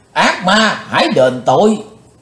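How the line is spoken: Loud shout. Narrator (Vietnamese): Trường Mộng Giả Tiên quát lớn

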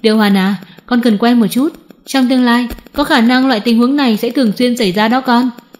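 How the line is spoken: Smiling. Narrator (Vietnamese): Phúc Đông mỉm cười nói

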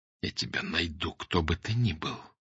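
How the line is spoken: Whisper. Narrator (Russian): прошептал Фандорин

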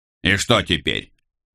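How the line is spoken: Irritated reply. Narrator (Russian): раздраженно ответил его брат

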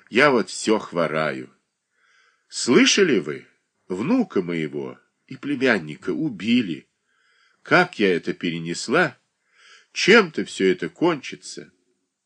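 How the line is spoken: Sighing. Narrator (Russian): Катерина Александровна вздохнула

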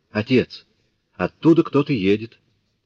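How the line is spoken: Sudden exclamation. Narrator (Russian): Вдруг она воскликнула

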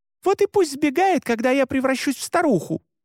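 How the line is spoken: Heated shout. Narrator (Russian): запальчиво крикнула Мари

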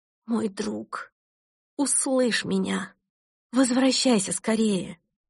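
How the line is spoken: Desperate cry. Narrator (Russian): Перестав контролировать себя, я в отчаянии воскликнула

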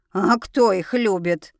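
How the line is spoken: Loud bark. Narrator (Russian): гаркнула она

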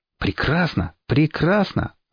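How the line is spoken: Joyful. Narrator (Russian): радостно сказал я

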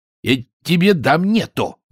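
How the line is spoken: Growled. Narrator (Russian): зарычал Чонкин

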